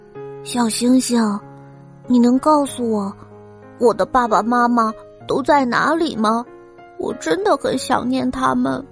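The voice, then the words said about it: Quiet tearful murmur. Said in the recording (Chinese): “小声的嘀咕着，眼泪也情不自禁的流了下来”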